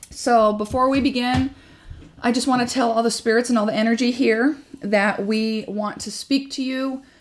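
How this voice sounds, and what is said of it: Husky, partly lost voice. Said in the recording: “when I start to lose a little bit of my voice, I sound like a ... a phone sex operator or something ... salty ... voice”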